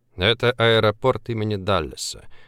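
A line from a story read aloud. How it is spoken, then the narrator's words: Sighing. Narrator (Russian): вздохнул Влад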